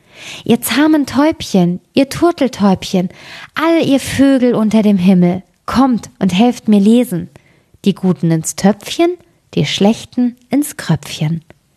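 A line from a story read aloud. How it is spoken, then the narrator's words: Girl calling out. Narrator (German): Das Mädchen rief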